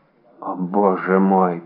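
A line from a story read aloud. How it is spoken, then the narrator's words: Whisper. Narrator (Russian): прошептал Фельтон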